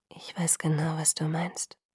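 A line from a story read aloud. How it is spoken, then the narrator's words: Whispered. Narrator (German): flüsterte er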